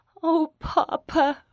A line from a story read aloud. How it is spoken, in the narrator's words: Rachel sobbed